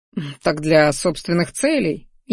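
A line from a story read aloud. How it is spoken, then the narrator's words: Snide chuckle. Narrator (Russian): ехидненько хохотнул Минариан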